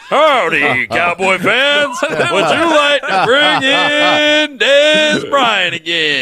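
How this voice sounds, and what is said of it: Impression of Troy. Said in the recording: “Troy voice ... There's Troy. ... good impression.”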